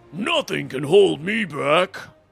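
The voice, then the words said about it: Deliberately bad character impersonation. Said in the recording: “I'm leaning into the superhero narrator vibe ... my terrible uh, impersonation.”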